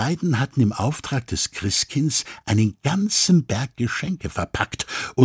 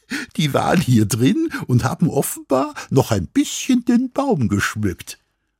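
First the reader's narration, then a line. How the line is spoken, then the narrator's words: Incredulous laugh. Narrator (German): lachte Mama ungläubig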